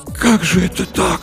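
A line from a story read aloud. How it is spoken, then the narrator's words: Whispered. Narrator (Russian): прошептал Артамонов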